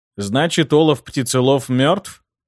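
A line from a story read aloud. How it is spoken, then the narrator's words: Skeptical snort. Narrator (Russian): хмыкнул я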